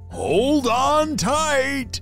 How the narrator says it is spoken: the driver shouted back to them

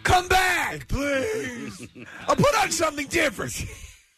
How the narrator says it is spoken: I was screaming

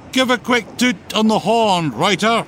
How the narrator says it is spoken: shouted Captain Bobo

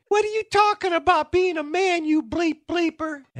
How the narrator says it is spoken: with his high-pitched voice, starts screaming

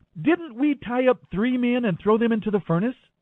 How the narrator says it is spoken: Nebuchadnezzar jumped up in amazement and exclaimed to his advisers

